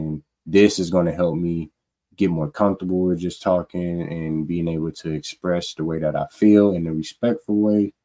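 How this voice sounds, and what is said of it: Dry, monotone voice. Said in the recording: “how my voice is right now. It's monotone. It's dry.”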